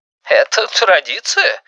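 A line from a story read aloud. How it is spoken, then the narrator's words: Forced fake laugh. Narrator (Russian): фальшиво засмеялся Валентин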